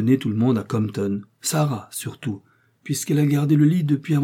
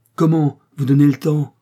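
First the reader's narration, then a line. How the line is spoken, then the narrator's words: Exclaimed. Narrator (French): s'écria le capitaine Fanny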